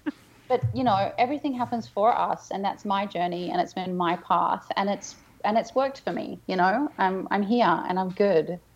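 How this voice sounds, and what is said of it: Australian accent. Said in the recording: “You have this beautiful Australian accent”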